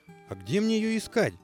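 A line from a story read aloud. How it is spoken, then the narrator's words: Small rooster shouting after. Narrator (Russian): прокричал бесцветный петушок вслед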